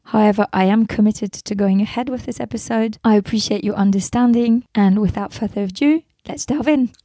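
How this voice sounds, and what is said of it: Hoarse, strained voice. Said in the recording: “my voice is a little different. I had a cold and lost my voice.”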